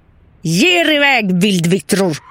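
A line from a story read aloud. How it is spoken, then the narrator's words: Screaming. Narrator (Swedish): skrek han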